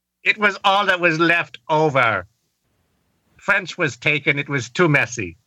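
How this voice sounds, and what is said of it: Bad put-on German accent. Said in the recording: “So why do you speak in a bad German accent?”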